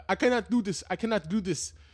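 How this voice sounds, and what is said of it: Poorly done put-on African accent. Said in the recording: “that's a terrible fucking African accent ... That was terrible.”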